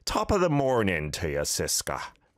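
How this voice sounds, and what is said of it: Put-on Irish accent. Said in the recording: “try out my Irish accent for the first time in a while ... Was that good? That's probably terrible.”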